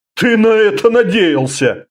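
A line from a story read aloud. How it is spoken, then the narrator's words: Snort. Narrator (Russian): фыркнул Орда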